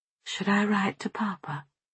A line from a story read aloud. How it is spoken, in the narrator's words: Softly, I asked